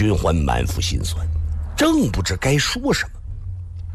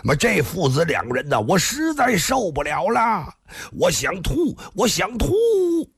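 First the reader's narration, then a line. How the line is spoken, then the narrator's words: Loud, clamorous shouting. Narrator (Chinese): 他嘴里是大呼小叫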